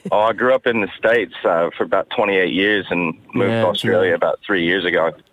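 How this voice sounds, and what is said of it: Australian accent. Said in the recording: “you sound Australian... there's definitely an affectation happening, but I reckon that's pretty decent... I think you've stayed pretty true to Aussie there”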